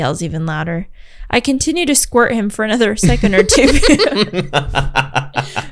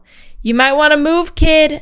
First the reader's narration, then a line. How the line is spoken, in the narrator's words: BC yells